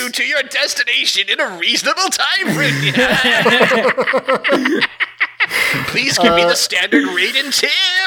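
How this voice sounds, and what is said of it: Joker character voice impression. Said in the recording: “I've never tried to do a Joker impression before.”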